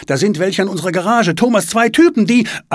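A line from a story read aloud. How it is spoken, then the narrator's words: Called out. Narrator (German): ruft Svenja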